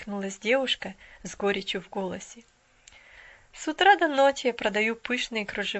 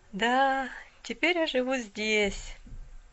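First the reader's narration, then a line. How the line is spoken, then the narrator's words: Sighing young woman. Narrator (Russian): вздохнула девушка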